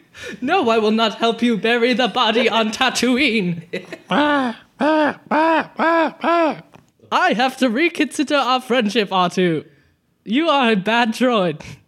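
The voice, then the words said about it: Impression of a robot character's voice. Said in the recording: “How was my impression? ... It was good. Very good. ... you are next in line ... to be C-3PO.”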